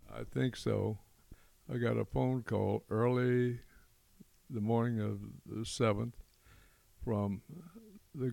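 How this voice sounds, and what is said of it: Slight southern accent. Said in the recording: “you might hear a little bit in his voice a southern accent. He's a Tennessee boy from Memphis.”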